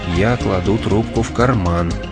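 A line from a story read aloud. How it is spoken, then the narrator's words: Quiet. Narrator (Russian): тихо проговорил Уэйд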